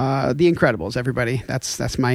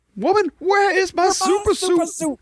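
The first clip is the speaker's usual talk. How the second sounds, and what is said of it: Imitates a movie character's voice. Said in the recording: “my Incredibles impression. That's the only one I can do.”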